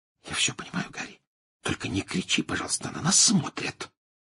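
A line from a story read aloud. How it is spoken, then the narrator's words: Whisper. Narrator (Russian): прошептала Гермиона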